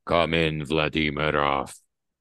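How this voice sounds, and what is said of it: Put-on Russian accent, sizzling voice. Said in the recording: “His voice is like sizzling oil ... Can you set your Russian accent to sizzling oil?”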